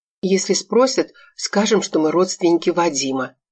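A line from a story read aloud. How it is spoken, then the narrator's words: Nervous whisper. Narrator (Russian): прошептала, нервно оглядываясь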